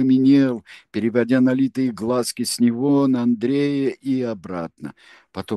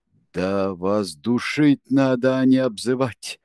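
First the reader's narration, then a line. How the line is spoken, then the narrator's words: Venomous hiss. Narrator (Russian): прошипел Кенси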